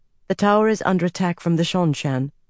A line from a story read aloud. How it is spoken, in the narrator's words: she said in a calm voice